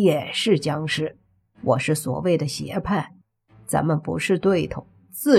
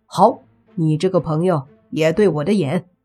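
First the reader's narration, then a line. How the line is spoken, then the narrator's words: Laughing. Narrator (Chinese): 莫凡也笑了，说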